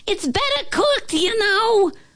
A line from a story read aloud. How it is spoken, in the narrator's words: she yelled